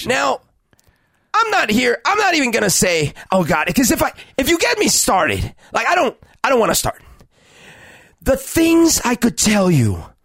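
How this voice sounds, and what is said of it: Imitates another person's voice. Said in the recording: “This is actually a pretty good impersonation.”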